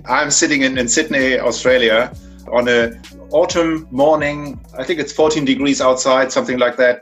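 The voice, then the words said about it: German accent. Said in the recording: “I'm from Germany, so you can tell by my accent, I can't hide that. I'm from Hamburg, Germany”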